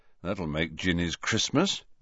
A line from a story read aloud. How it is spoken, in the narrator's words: muttered Fred